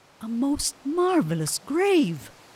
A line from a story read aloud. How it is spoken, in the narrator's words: exclaimed the people